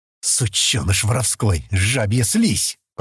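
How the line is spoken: Hissed. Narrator (Russian): прошипел Бол

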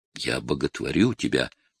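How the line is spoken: Whisper. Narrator (Russian): прошептал Джейсон

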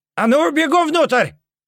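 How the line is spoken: Yelling over explosions. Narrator (Russian): заорал он, перекрикивая шум взрывов

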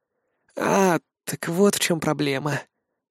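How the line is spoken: Drawl. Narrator (Russian): протянул Семен

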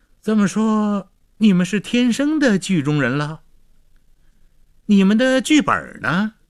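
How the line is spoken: Mock-surprised, sarcastic. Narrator (Chinese): 导演故作惊讶地讽刺说

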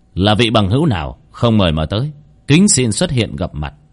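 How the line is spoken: Raised voice question. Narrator (Vietnamese): cao giọng hỏi

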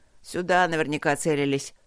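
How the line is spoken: Soldier, gloomy. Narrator (Russian): мрачно заключил боец

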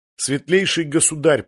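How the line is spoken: Nearly tearful speech. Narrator (Russian): проговорил один из них едва ли не сквозь слезы

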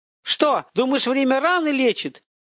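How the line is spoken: Mocking shout. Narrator (Russian): крикнула она, в ее голосе слышна издевка

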